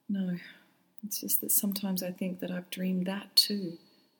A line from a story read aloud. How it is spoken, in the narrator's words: she said sadly